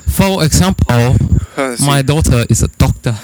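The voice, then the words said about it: Put-on foreign accent. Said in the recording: “I don't know what type of accent it was. ... Nailing it.”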